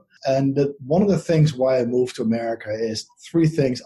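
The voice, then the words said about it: Dutch accent. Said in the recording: “My accent is from the Netherlands”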